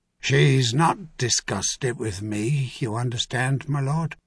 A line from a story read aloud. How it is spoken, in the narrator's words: Raymer said in an equally quiet voice